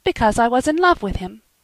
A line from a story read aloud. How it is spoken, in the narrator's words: she said firmly